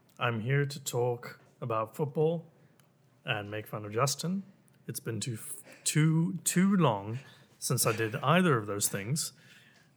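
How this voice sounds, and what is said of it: British accent. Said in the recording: “That sultry British accent can never leave this podcast ever again.”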